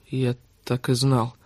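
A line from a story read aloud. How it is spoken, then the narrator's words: Mumbling. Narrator (Russian): бормотал он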